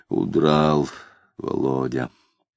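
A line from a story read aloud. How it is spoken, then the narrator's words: Muttering. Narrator (Russian): Макаров, пробормотав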